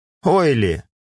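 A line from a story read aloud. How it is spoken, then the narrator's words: Snorting hmph. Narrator (Russian): хмыкнул Нирок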